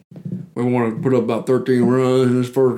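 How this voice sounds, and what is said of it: Bad impression of Gus. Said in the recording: “that sounds like a bad Gus impersonation... Yeah, that does sound like Gus... It's a bad Gus”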